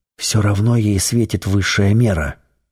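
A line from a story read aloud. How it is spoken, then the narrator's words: Whisper. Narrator (Russian): шепнул Семен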